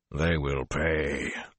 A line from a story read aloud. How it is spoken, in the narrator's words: Luzerne growled